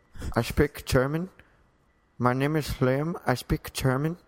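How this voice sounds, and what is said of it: English with a put-on German accent. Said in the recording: “Now try to do it where you speak English, but with a German accent ... You sound like the guy from Austin Powers.”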